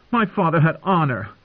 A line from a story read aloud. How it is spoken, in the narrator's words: she said angrily